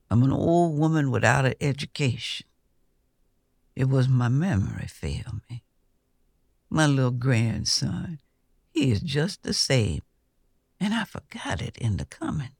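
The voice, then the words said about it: Soft voice. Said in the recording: “she said in a soft voice.”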